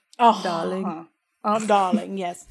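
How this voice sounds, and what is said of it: Imitated posh British accent. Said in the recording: “gorgeous European accent, like some kind of British... accent... In England... It's beautiful.”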